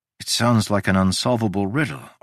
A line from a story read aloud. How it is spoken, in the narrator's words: I sighed